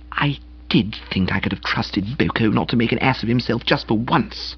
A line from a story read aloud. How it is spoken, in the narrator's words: she murmured with a wild regret